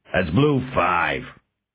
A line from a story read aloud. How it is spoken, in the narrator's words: the big man growled